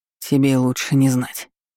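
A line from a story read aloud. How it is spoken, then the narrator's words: Breathed out. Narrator (Russian): выдохнул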